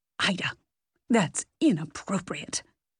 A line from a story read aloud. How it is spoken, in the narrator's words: Helen hissed